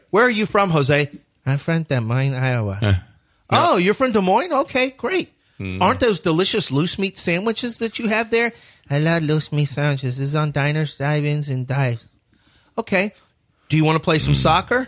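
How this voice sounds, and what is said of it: Impression of a TV personality's voice. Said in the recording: “I don't think we can do that voice ... He does it all the time on TV ... You're doing an impression ... you can't be doing that voice”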